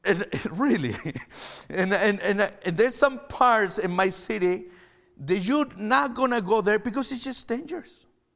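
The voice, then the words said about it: Chilean-accented English. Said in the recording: “I'm from Chile. ... I'm not Canadian. That's why I have an accent.”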